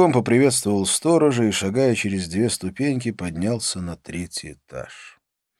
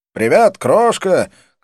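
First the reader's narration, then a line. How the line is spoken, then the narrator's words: Shout, exaggerated American accent. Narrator (Russian): крикнул я с утрированным американским акцентом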